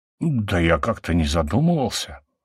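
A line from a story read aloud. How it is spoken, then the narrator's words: Muttering. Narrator (Russian): пробормотал Гиена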